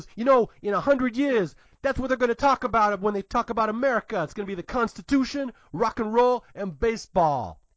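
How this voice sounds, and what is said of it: Poor New York accent, John Travolta. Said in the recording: “my accent's even worse than his, actually ... that wasn't good. That sounded more like Virginia or something ... I'm trying to do John Travolta in Saturday Night Fever. So that's my only frame of reference for New Yorkers.”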